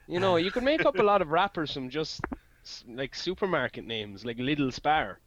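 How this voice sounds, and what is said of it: Strong, hard-to-understand regional accent. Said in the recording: “I'm the first person on this podcast with an accent that they will not be able to comprehend ... Lidl sounds better in your accent”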